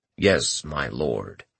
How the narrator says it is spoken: Futin replied in his normal monotone

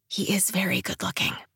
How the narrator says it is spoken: I whisper

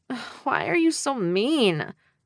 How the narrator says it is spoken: I groaned

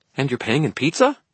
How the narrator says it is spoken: Toot asked, his tone hopeful

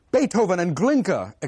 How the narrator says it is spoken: exclaimed Anton Rubinstein

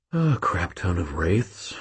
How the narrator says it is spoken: I breathed quietly

